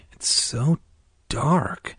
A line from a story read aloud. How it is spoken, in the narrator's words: I whispered